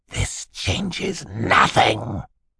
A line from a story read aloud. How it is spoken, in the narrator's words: he hissed at them